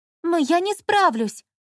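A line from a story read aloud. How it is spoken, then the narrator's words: Exclaimed. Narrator (Russian): воскликнула жена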